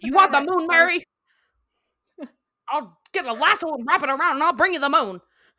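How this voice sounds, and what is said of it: Impression of It's a Wonderful Life character. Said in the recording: “I do an impression ... that movie It's a Wonderful Life”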